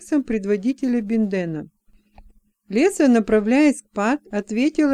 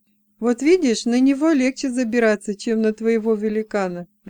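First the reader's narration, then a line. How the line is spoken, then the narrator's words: Laughing. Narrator (Russian): рассмеялся Джексон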